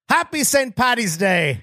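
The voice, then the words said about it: Poor Irish accent sounding Jamaican. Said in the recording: “my accent isn't good? ... Sound Jamaican.”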